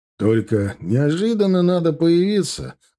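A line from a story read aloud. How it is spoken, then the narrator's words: Remark after laughing. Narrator (Russian): заметил Ахмат, просмеявшись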